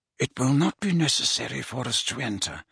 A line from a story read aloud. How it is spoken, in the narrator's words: muttered Dumbledore